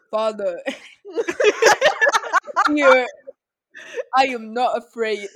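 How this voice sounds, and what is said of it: Imitates another person's voice. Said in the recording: “he came in with that accent ... Why was he talking like that? ... What was that accent choice?”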